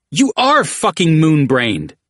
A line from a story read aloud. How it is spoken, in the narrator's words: the big frailing exclaimed, to yell full in Jackal's face